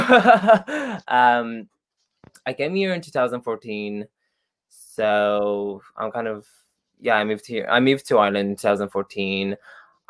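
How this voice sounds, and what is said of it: Romanian accent. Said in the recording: “I'm actually a Romanian. I'm not Irish. ... The accent did not give it away.”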